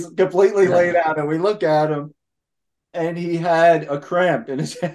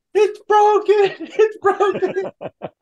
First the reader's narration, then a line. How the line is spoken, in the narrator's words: Ernie's laid out in the middle of the living room screaming